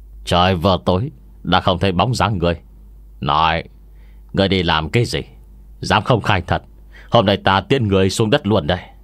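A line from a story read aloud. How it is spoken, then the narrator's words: Harsh demanding question. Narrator (Vietnamese): hai người áo đen gằn giọng hỏi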